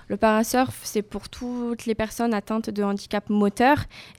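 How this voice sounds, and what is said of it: English accent speaking French. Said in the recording (French): “excusez-moi pour mon accent anglais”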